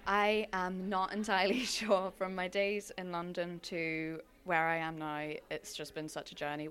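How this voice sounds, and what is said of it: London English accent. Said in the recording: “London was a part of my life, as you can probably tell by my accent”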